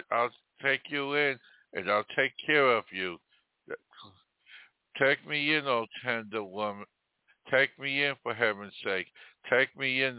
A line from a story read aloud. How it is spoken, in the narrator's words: the tender woman sighed